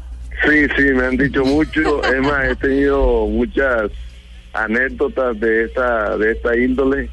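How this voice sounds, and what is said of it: Coastal (costeño) Spanish accent. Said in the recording (Spanish): “Con acento costeño”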